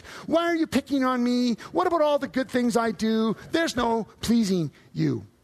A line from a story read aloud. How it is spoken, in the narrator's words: whining